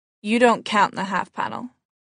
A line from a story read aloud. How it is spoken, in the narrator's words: he said